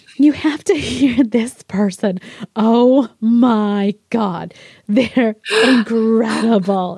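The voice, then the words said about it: Generic mom voice impression. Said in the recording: “That was a wonderful impression of your mom ... she sounds nothing like that ... That's like a generic mom impression”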